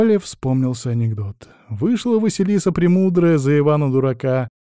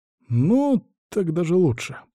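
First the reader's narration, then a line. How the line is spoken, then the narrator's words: Muttered. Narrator (Russian): пробормотал я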